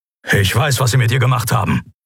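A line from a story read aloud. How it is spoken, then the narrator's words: Grumbling. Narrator (German): brummte Keru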